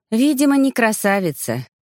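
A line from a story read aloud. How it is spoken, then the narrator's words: Sad sigh. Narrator (Russian): печально вздохнула я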